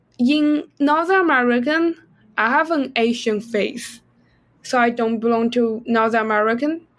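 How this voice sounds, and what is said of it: Non-native English accent. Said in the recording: “you do feel that I have an accent. I'm not a native speaker.”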